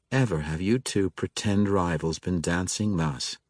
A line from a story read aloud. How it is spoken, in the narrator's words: she said